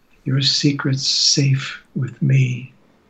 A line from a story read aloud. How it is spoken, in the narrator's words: I whispered to each of them